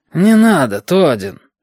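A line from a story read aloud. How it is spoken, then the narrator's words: Irritated bearded man. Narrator (Russian): раздраженно уронил бородач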